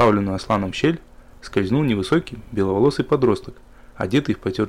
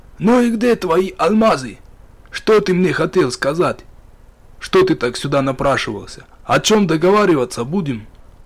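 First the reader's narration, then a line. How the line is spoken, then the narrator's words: Rough, slightly frightened question. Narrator (Russian): грубо спросил Ахмат, несколько напуганный этим внезапным появлением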